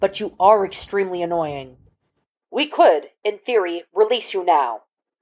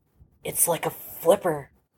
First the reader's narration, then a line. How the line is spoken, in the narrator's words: Archer whispered